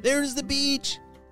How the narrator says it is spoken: shouted Callum

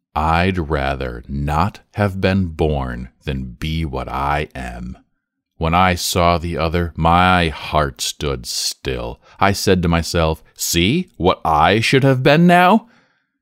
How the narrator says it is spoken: the boy said roughly

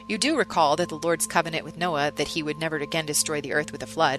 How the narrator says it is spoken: said

